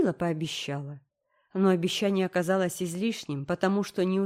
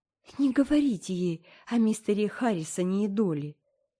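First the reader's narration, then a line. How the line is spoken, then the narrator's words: Pleading. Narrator (Russian): взмолилась Энн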